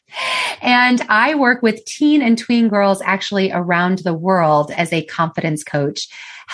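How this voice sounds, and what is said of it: American accent. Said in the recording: “I am from the United States. I don't know if you can tell by my accent.”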